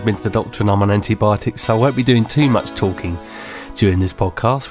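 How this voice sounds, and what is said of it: Unwell voice. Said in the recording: “as you may hear from my voice, I'm not very well. I managed to come back from the Cropperty Festival at the weekend with bronchitis.”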